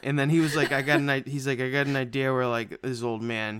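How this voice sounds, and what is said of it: Stoner-style drawling voice. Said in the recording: “Why are you making James Wan sound like that? ... I'm not going to do an Asian accent ... So I'm doing a stoner accent”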